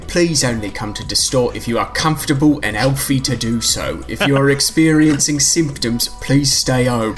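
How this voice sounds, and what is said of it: Put-on accent. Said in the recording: “People love when we do this accent.”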